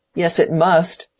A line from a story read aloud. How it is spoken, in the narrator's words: said Will angrily